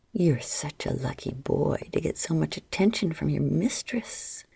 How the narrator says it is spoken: Adara whispered into his ear

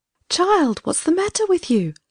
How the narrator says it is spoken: she cried

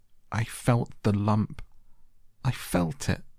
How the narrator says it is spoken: choked out Colin

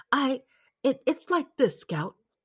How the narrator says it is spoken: he muttered

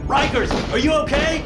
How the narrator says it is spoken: I screamed over the hail of gunfire

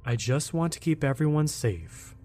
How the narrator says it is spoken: responded evenly, suppressing a smile

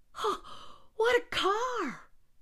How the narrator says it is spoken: cried John again in amazement

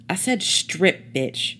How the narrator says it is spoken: she snapped

